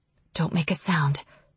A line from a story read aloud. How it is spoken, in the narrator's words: Calla whispers from somewhere nearby